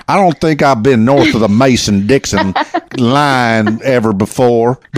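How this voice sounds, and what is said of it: Put-on country twang accent. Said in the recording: “I need to put my country twang on it.”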